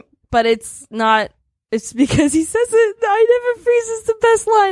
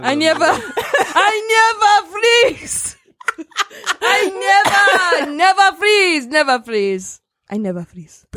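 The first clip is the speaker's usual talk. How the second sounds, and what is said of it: Bad imitation of African accent. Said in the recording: “Bad African accents? ... That's not a bad African accent. That's a bad T'Challa accent.”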